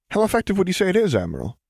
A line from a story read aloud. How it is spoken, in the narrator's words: he asked eagerly